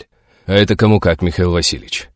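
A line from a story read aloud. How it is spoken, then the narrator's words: Sigh. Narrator (Russian): Вздохнул Игнат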